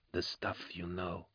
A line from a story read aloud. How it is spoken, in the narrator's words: whispered Kara Swole